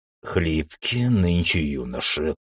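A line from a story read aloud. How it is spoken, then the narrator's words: Grumbling. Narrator (Russian): проворчал Георгий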